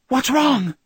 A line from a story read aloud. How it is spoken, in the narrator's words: Cammy Reed cried from behind the swinging door